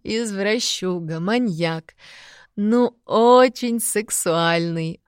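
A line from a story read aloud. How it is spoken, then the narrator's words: Laughing close to ear. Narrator (Russian): Опять засмеялась она мне на ухо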